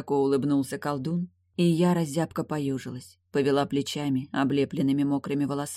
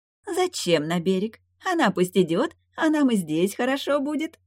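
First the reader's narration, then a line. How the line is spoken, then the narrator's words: Lake spirit giggling. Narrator (Russian): хихикнула озерница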